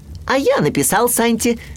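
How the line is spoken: Shouted. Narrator (Russian): крикнул Ру

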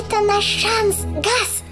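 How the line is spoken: Squeaky. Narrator (Russian): пропищал Жак

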